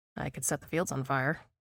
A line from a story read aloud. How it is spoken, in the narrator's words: I mumble